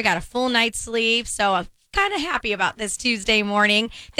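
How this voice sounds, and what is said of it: Slightly squeaky, recovering voice. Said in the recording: “my voice is a little bit better than yesterday. Still got the little squeak going on”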